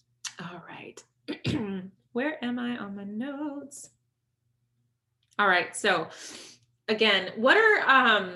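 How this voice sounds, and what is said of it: Slightly raspy voice. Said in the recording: “My voice is starting to get a little raspy.”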